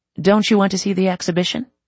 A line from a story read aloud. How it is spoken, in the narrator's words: asked, his voice steady